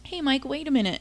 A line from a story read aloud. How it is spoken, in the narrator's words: Terry called after him feebly